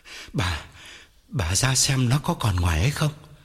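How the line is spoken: Breathless panting. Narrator (Vietnamese): Ông thở hổn hển bảo vợ

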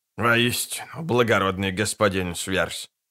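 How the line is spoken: Grumbling mutter. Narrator (Russian): буркнул скомлик

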